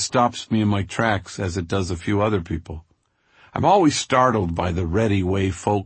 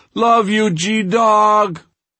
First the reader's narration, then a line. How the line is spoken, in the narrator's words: Junior screams full throttle